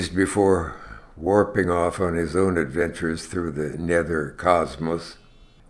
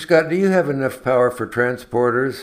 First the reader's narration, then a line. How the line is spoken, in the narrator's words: Shatner barked into the intercom